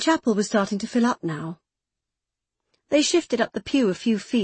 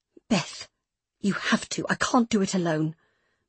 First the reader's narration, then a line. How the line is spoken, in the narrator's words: Meg whispered urgently